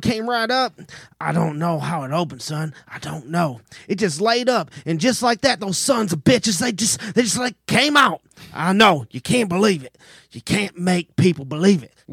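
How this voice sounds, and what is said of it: Dramatic monologue in southern accent. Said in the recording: “he just went into like this dramatic monologue there in a southern accent ... he's doing a good job”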